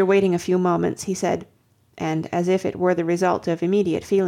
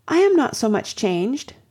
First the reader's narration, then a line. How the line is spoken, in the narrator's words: cried Anne